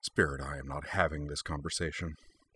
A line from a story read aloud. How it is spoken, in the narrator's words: Kaname muttered through her teeth